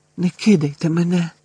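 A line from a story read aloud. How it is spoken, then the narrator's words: Whispered. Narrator (Ukrainian): прошепотів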